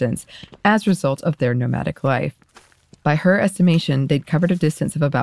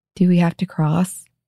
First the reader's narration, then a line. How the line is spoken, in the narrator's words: asked in a tiny, plaintive voice